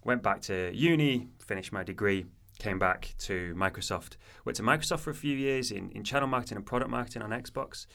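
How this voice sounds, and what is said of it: Manchester accent. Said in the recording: “I'm from Manchester originally, as you can probably tell by my accent, though I've lived down south since I was about 18”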